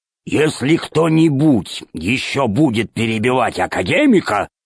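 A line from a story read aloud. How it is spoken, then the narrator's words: Growling. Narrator (Russian): зарычал Громозека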